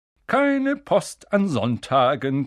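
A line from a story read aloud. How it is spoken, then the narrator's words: Cheerful reminder. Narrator (German): gemahnte er sie fröhlich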